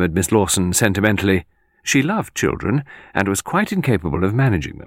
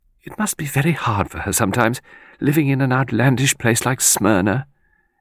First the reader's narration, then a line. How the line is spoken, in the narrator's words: Miss Lawson sighed and said